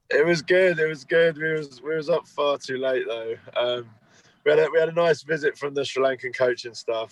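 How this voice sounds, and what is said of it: Croaky, hoarse voice. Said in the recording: “Is croaky. ... I'm really hungover, though. ... My voice is gone.”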